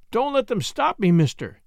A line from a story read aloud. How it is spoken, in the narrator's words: he cried